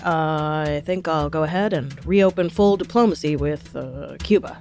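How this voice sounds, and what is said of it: Imitates another person's voice. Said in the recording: “That was my Obama impression.”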